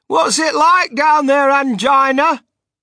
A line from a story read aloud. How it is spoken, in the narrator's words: He called out